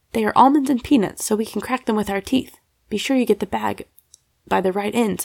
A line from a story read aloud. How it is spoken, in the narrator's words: said Sally